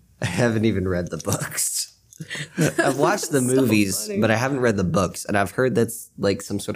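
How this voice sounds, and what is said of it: Usual voice. Nothing is said of it.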